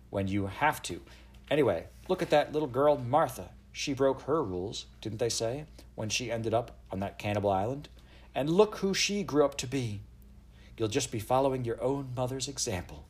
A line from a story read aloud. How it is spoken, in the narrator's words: said Eliza firmly